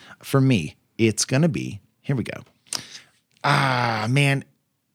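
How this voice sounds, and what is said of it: Usual voice. Nothing is said of it.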